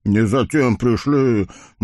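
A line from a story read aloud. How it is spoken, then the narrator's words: Gloomy mutter, blacksmith. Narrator (Russian): мрачно пробурчал целомудренный кузнец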